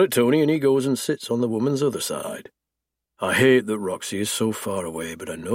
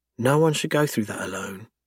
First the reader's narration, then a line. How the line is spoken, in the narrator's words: she whispers